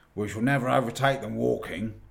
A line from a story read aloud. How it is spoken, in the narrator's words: growled the dwarf